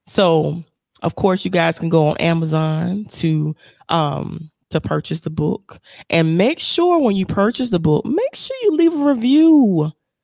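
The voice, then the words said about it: Strained, failing voice. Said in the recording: “my voice is a little challenging right now... my voice want to leave me here and there”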